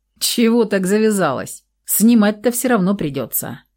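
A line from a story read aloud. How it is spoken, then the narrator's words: Snort. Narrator (Russian): фыркнул он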